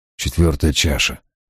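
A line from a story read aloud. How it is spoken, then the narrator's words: Muttered. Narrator (Russian): пробормотал я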